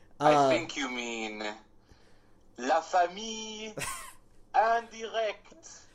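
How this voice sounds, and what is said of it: Terrible put-on French accent. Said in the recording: “Why are we doing terrible French accents?”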